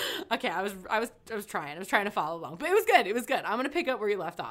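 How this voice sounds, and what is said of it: Usual voice. Nothing is said of it.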